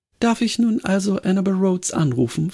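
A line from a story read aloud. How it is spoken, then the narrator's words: Plain. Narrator (German): fragte ich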